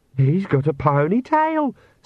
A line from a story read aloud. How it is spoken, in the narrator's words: squeaked Perdita